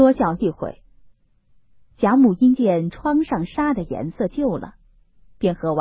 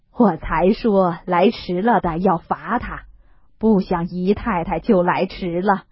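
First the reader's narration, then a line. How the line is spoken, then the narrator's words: Laughing. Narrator (Chinese): 贾母笑道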